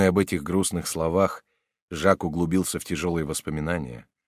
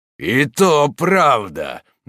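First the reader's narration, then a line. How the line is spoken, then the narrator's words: Mocking, deliberately raised voice. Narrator (Russian): насмешливо заговорил Морок, нарочно возвышая голос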